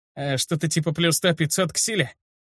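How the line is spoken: Lazy snort. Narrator (Russian): С ленцой хмыкнул кореец

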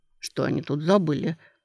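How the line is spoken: Muttering. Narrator (Russian): пробормотал

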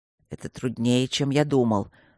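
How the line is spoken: Through gritted teeth. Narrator (Russian): сквозь зубы проговорил Свидерский

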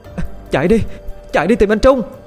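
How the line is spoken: Shouting. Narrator (Vietnamese): Thư hét lên

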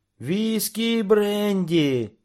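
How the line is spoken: Cheerful group shouting. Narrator (Russian): весело заорали разведчики

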